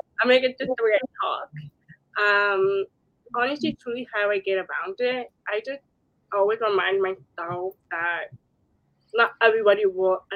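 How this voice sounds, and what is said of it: Slight accent in speech. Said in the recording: “someone that is deaf, or it's harder for you to communicate ... You have a little bit of an accent.”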